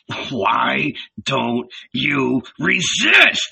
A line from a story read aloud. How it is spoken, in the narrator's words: growled